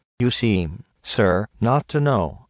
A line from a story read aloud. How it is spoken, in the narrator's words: said he